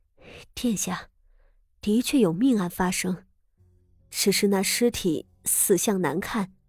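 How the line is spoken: Strained, forced composure. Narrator (Chinese): 掌事女官硬生生咬牙撑着，深吸了一口气，才回头朝太子妃道

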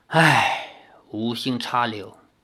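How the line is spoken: Long sigh. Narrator (Chinese): 李逍遥长叹道

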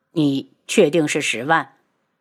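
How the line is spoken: Cold voice. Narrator (Chinese): 冷声道

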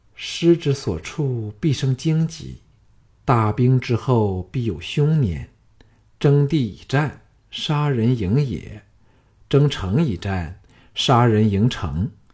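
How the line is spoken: Soft, wistful recitation. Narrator (Chinese): 石素芳秀眸像蒙上了一层淡淡的薄雾，轻吟说

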